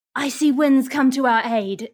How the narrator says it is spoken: I'm going to yell out

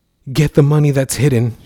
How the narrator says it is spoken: shouted Norma to Stephany

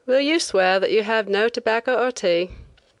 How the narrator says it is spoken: the inspector asked lazily

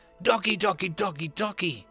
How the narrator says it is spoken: she weakly called out

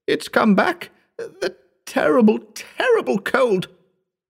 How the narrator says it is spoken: choked

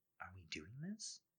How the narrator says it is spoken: She whispers

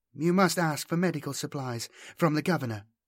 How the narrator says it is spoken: she said calmly, not asking him but stating it as a fact

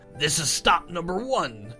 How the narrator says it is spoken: the old Grinchy Claus hissed

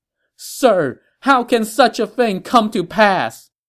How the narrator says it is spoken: the emperor cried out to him

